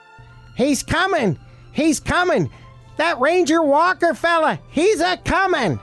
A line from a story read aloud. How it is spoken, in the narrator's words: Hiltz came running from the telegraph office screaming